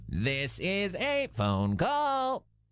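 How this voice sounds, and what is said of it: Robot voice. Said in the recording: “doing a little robot voice.”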